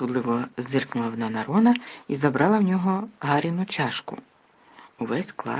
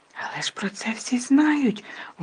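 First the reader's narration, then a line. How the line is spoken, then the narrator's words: Loud whisper. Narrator (Ukrainian): голосно прошепотіла Герміона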